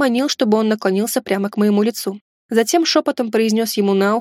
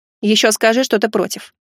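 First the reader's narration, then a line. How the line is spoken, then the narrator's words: Snorting. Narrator (Russian): хмыкнул я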